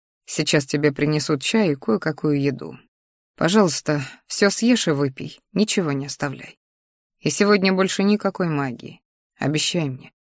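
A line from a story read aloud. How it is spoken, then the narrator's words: Quiet speech. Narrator (Russian): тихо сказал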